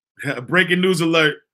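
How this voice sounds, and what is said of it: Imitates another person's voice. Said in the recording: “in my EYL voice.”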